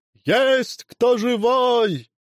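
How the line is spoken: Distant shouting. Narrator (Russian): кричали со двора

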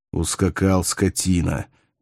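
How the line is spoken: Quiet breathed words, lion. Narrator (Russian): тихо выдохнул лев

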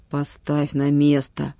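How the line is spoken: Grumble. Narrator (Russian): буркнул Витюня

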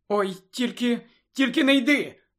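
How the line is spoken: Tearful exclamation, near crying. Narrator (Ukrainian): вигукнула Чо, готова знову розплакатися

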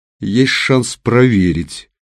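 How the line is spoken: Gloomy. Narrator (Russian): мрачно произнес Серый

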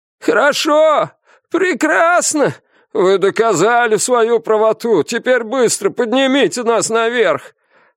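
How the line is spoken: Hoarse shouting from below. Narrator (Russian): Охрипшими голосами кричали снизу его коллеги

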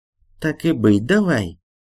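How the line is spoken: Woman speaking through teeth. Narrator (Russian): процедила дама

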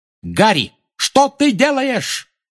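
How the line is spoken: Shout while flying past. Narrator (Russian): крикнула Анжелина, пролетая мимо

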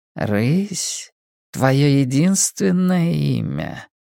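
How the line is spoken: Purring woman. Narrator (Russian): промурлыкала женщина

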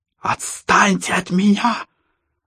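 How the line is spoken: Spluttering shriek, young girl. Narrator (Russian): брызнув слюной, провизжала девочка

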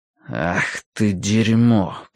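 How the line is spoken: Muttering. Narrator (Russian): пробормотал Гурни

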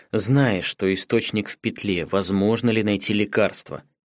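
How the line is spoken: Lowered, calm question. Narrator (Russian): Понизив голос, спокойно спросил Каору

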